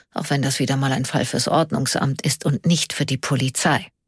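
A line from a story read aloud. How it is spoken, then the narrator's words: Quiet mumble. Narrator (German): murmelte er leise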